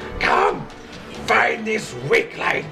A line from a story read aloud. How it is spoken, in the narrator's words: Hazel, after hearing no response, screams in Draconic